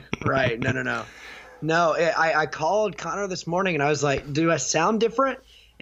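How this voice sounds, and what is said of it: Raspy, strained voice. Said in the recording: “Go rest that throat, homie. ... your sexy raspy voice”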